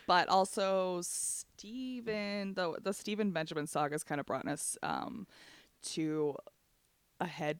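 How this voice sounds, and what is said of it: Out of breath, breathy speech. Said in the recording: “that's why I'm out of breath.”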